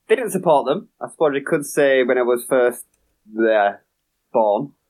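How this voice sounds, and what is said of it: Leeds accent. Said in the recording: “You are obviously a Leeds fan... I guess the accent gives it away a little bit as well.”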